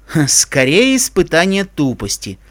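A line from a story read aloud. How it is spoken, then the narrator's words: Pale mutter. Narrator (Russian): пробормотал бледный Себастьян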